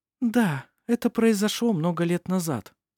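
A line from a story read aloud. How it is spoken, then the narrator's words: Answered gently. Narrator (Russian): мягко ответила Феодора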